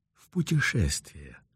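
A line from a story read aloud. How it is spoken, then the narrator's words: Gentle reply. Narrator (Russian): ласково ответили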